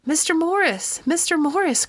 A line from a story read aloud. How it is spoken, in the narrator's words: cried a frightened voice